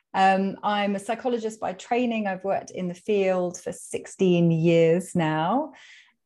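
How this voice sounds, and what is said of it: British accent. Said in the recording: “you can probably tell from my accent that I am speaking from the UK. I'm in London.”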